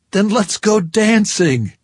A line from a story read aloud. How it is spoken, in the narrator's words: I said a little wildly